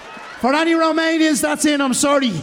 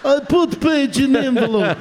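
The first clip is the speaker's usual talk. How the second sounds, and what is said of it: Poor put-on Romanian accent. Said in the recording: “That's a shit Romanian accent, isn't it?”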